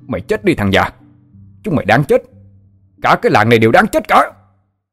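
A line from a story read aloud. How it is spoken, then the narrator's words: Shouting. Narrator (Vietnamese): hắn hét lên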